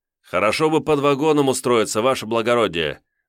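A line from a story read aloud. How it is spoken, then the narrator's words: Exclaiming. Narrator (Russian): воскликнул я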